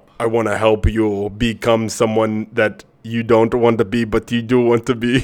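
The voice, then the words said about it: Exaggerated stereotypical Indian accent. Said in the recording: “that was a horrible stereotypical Indian accent.”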